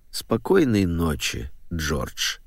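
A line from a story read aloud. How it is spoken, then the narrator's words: Old man, utterly weary. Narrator (Russian): повторил старик бесконечно усталым голосом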